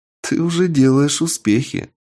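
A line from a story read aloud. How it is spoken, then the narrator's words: Laughing. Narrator (Russian): рассмеялась Анника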